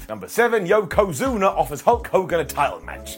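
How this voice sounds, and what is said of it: Disdainful, scornful tone. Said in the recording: “you can hear the disdain in my voice”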